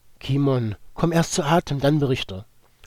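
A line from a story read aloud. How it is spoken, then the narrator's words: Former commander urging. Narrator (German): forderte der ehemalige Kommandant den abgekämpften Zwerg auf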